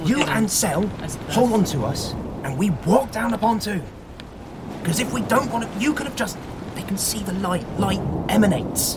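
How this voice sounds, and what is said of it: Whispering. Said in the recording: “I'm whispering!”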